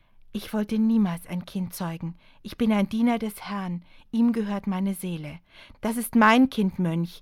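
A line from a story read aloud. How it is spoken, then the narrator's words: Sharp reply. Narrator (German): kam scharf ihre Antwort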